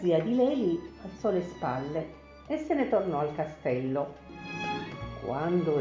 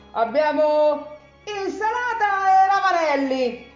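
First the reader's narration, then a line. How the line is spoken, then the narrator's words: Even louder shout. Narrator (Italian): gridò ancora più forte Leili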